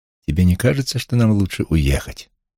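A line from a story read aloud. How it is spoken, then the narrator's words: Plain. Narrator (Russian): это сказала Нора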